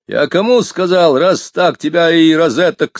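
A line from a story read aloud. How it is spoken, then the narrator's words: Yelled. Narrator (Russian): заорал милиционер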